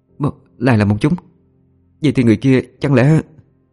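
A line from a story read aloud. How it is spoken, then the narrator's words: Stammering. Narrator (Vietnamese): An Nhiên lắp bắp nói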